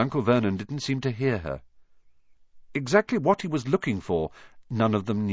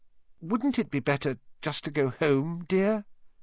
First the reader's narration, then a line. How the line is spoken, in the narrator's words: Aunt Petunia suggested timidly